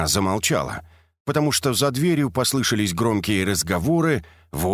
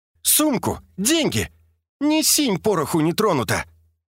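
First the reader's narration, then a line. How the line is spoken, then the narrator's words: Shrill shriek. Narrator (Russian): Фокина взвизгнула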